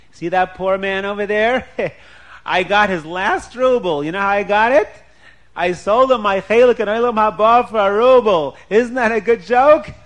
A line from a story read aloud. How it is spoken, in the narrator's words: laughing